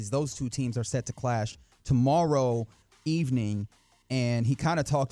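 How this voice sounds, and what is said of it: Usual voice. Nothing is said of it.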